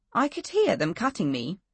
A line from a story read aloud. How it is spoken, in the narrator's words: she said